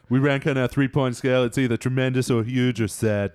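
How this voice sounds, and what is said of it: Imitates another person's voice. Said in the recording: “that sounded exactly like you impersonating Alec Baldwin impersonating Trump.”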